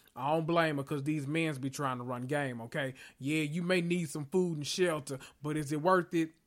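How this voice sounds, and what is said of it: Usual voice. Nothing is said of it.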